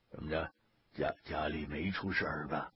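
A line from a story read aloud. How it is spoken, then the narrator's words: Hushed low voice. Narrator (Chinese): 俩老爷子 压低了嗓门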